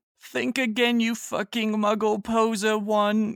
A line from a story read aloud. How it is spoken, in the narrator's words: Harry yelled